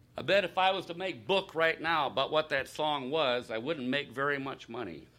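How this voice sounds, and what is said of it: Strained, worn-out voice. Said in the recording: “this is the longest session I have ever been in my life, and my voice is about to fall apart”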